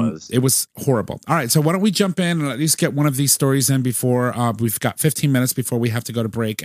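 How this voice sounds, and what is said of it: Usual voice. Nothing is said of it.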